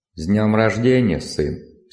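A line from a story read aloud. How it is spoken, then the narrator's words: Plain. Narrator (Russian): сказал отец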